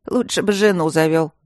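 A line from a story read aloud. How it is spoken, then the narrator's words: Unabashed grumbling cook. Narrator (Russian): ворчала повариха, ничуть не стесняясь постороннего человека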